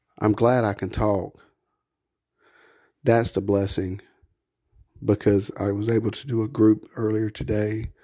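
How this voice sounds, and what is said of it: Slightly hoarse voice. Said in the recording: “I know it's still a little hoarse, but it's not as hoarse as it's been for the last couple of days”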